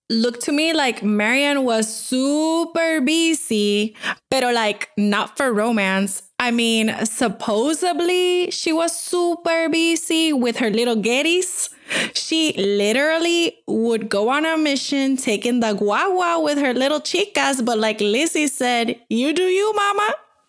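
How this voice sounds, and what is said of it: Put-on Miami accent. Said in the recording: “that was a great Miami accent”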